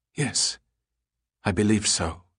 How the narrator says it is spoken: she said quietly

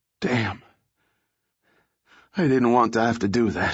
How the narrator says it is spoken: he panted

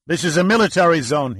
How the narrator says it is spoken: blurted

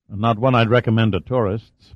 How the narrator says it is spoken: Pitt replied

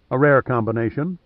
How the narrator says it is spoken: Pitt said calmly

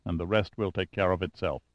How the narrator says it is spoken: he said softly

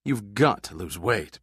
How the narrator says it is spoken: Pitt grunted

